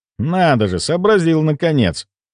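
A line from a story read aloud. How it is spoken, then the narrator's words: Irritated. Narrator (Russian): раздраженно произнес я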